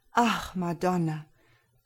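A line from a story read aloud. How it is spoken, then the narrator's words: Sighing knight. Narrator (German): seufzte der Ritter der Weisheit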